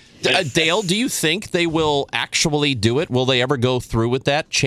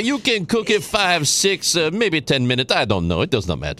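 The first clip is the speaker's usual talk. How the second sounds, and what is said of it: Jacques Pepin accent impression. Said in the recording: “I like watching Jacques Pepin cook ... I'm glad you watch TV in the accent that you're watching it.”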